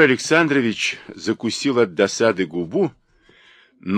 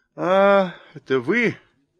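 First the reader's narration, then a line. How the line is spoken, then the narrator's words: Lazy. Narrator (Russian): сказала она лениво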